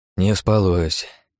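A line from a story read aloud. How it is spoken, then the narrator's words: Sighing. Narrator (Russian): вздохнул я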